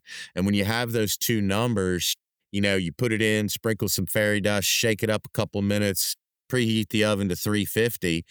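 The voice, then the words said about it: Strong regional accent. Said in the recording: “if y'all can't understand my accent”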